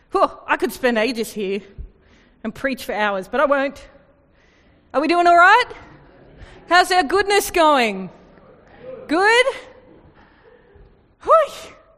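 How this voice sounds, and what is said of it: Out of breath, panting. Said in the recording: “I know I must be pretty excited because I'm out of breath.”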